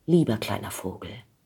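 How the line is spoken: Plain. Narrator (German): sagte der Prinz

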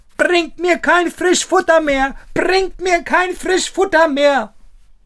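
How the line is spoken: Calling out again. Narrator (German): rief Daumestick aufs Neue

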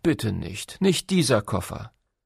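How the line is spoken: Father's groan. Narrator (German): stöhnte Vater

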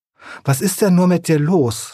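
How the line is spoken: Hare sobbing. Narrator (German): schluchzte der Hase

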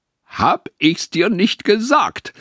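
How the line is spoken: Triumphant shout. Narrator (German): rief er triumphierend

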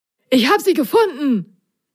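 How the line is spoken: Excited call. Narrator (German): rief Prop aufgeregt

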